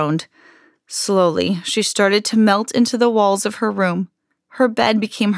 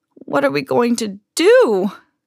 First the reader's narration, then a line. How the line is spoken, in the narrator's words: cried Mrs